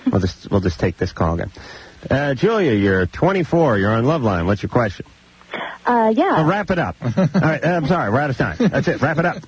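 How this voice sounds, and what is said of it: Imitates a radio engineer's voice. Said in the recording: “my impersonation of a K-Rock engineer”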